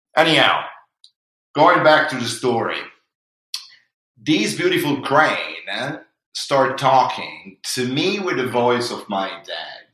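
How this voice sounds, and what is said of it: Non-native accented broken English. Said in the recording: “this is my accent. This is my broken English.”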